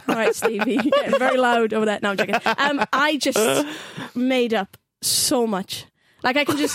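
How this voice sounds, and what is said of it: Strong Welsh valleys accent. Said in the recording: “valleys ... Neath ... Hence the strong accent.”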